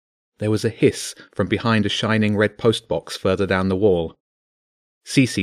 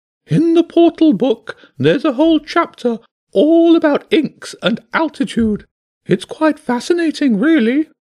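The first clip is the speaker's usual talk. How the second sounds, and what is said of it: High-pitched character voice. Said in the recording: “the bishop's high voice answered.”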